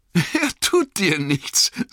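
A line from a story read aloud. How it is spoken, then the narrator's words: Suppressed laughter, startled. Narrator (German): sagte Frodo und konnte sich kaum das Lachen verbeißen, obwohl er selbst erschrocken und ziemlich verwirrt war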